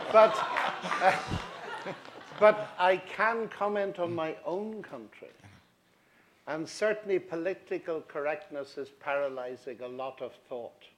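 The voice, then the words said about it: Non-American English accent. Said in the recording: “as you can hear from my accent, I'm not an American”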